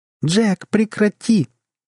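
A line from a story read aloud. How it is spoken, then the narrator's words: Sudden shout, nearly shrieking. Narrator (Russian): вдруг закричала Сюзанна, почти сорвавшись на виск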